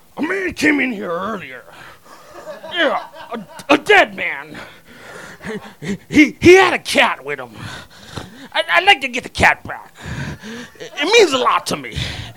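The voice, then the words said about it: Imitates a movie character's voice. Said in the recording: “that kind of impression”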